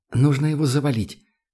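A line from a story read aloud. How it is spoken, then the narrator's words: Whispered. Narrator (Russian): шепнула она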